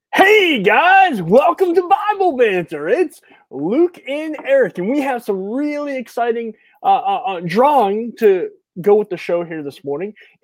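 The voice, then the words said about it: '90s radio DJ voice. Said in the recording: “put on your '90s DJ voice for this announcement”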